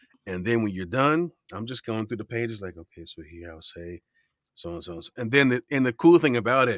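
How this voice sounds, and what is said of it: Usual voice. Nothing is said of it.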